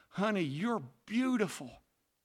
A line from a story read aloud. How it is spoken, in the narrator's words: he murmured to his wife